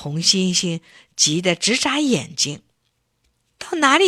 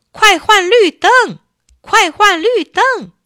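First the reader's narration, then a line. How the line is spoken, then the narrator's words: Honking, shouting together. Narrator (Chinese): 汽车们使劲的按着喇叭，一起叫起来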